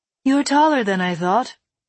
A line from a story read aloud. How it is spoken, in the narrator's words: they said